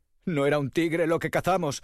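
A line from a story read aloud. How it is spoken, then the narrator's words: Sobbing. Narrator (Spanish): sollozaban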